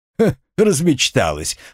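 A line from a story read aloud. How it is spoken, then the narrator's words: Guffawing young man. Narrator (Russian): хохотнул парень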